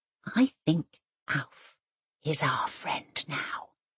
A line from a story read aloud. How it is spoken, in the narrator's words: she whispers